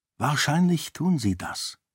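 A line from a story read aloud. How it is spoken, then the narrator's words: Plain. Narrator (German): sagte Raoden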